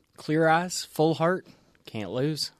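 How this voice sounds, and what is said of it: Put-on Southern US accent. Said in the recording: “Thanks for that Southern accent, too.”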